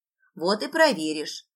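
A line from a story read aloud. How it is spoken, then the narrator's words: Amused snort. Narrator (Russian): хмыкнула Нина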